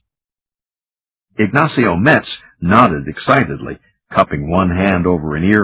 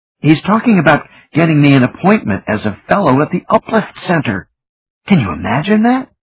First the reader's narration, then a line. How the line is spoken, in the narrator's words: Denny couldn't help bouncing up and down excitedly